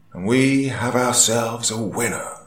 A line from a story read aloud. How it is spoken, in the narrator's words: the voice of the announcer boomed through the speakers